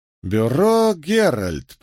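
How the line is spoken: Drawling, reading aloud. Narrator (Russian): протянул судебный медик, читая объявление

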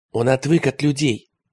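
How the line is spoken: Whisper. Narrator (Russian): прошептал Теретомба

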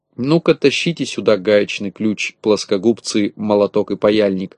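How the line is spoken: Plain. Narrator (Russian): сказал Винтик малышкам

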